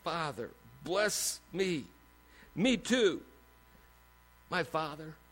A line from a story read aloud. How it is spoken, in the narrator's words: As if he's pleading